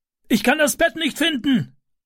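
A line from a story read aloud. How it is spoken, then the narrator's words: Calling downstairs. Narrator (German): rief er nach unten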